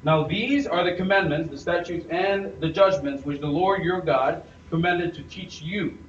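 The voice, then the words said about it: Non-American accent. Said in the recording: “Americans would say Deuteronomy. I'm going to use my own accent and say Deuteronomy.”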